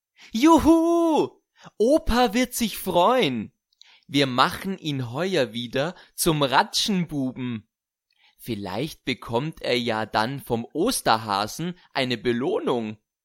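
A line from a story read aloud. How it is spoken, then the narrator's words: Giggling. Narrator (German): kichert Fanny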